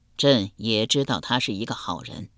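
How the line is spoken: Sighing. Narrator (Chinese): 哲宗亦叹道

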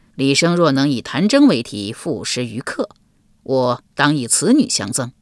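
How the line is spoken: Laughing. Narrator (Chinese): 郭暖笑道

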